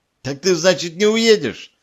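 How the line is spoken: Joyful question. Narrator (Russian): радостно спросила Лидия

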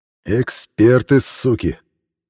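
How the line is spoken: Hissed through teeth. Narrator (Russian): прошипел сквозь зубы Михаил Иванович

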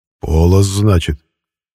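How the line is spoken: Grumble. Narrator (Russian): проворчал Умрун

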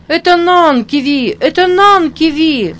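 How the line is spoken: Children shouting with delight. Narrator (Russian): кричали некоторые дети и прыгали от восхищения

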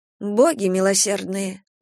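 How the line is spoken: Someone muttering. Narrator (Russian): пробормотал кто-то

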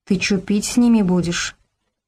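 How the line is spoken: Frightened whisper. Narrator (Russian): испуганно зашептал Богдан

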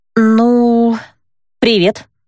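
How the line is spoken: Uncertain, awkward. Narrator (Russian): неуверенно произнесла я, прерывая неловкое молчание

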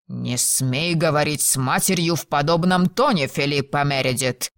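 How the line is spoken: Angry growl. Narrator (Russian): прорычал Логан

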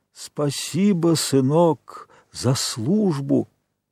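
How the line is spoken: Tired, elderly-sounding voice. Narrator (Russian): Чонкин усталым, отчасти даже старческим голосом изобразил

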